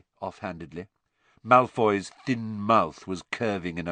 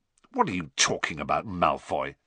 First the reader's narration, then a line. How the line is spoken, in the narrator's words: said Ron, roughly